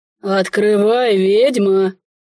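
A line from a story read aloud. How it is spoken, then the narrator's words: Quieter deep bass. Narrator (Russian): Уже тише пробасил незваный гость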